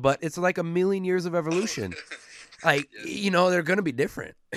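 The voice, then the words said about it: Strained, fading hoarse voice. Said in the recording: “I'm losing my voice. I'm losing my voice in this one.”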